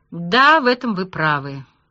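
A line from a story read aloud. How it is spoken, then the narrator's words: Gloomy sigh. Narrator (Russian): вздохнул Молчанов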